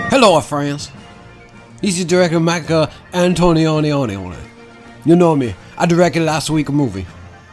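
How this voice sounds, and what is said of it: Weird put-on Italian accent, Texan-sounding. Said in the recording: “this Italian guy, who's got a very weird accent ... Are you from Texas ... my accent, it varies across the way”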